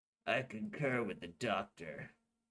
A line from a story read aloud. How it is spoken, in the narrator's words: General Gilbert muttered